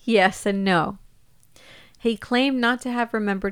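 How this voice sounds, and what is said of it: Usual voice. Nothing is said of it.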